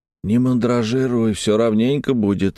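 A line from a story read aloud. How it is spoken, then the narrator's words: Hoarse. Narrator (Russian): сиплым голосом сказал ему я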